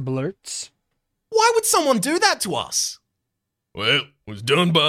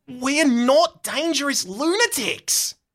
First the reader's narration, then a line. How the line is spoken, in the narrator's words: Max scoffs